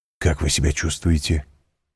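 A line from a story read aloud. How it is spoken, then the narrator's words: Quick whispered question. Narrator (Russian): быстро спросил он шепотом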